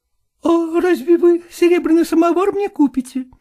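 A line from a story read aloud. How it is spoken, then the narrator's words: Cheerful, smiling. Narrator (Russian): весело улыбнулась Настя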